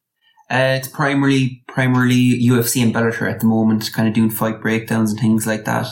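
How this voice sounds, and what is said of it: Irish accent. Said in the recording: “if you haven't figured out the accent, ... from Ireland”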